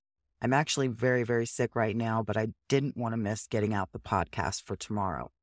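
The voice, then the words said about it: Stuffy, congested sick voice. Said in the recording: “I'm real stuffy in my head, which you can probably tell by my voice... please forgive the voice. I am very under the weather”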